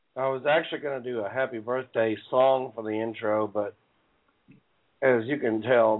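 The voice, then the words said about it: Weak, strained sick voice. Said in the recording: “Being sick ... my voice is not, I can barely speak, let alone sing ... You would have sounded like an old drunken bum”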